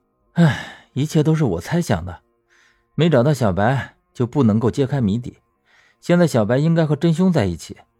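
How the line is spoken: Slight sigh. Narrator (Chinese): 刘长乐微叹口气说

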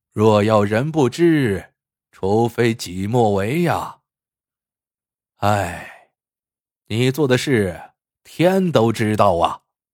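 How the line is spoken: Sighing. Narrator (Chinese): 卖货郎叹了口气，说道

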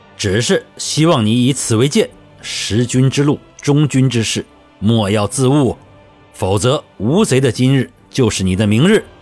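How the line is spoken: Stern, loud voice. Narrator (Chinese): 朱大典声色俱厉地大声道

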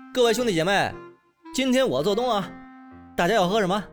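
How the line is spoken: Loud, hosting. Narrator (Chinese): 小谭大声说道

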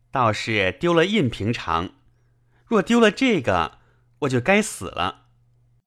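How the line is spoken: Laughing. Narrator (Chinese): 宝玉笑道

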